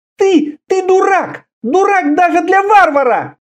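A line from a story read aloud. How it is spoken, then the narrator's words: Shouting. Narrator (Russian): закричала она под конец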